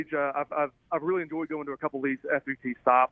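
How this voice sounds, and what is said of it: Southern American accent. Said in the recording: “we love your southern accent because guess what? It sounds like our southern accent. ... But you talk like us.”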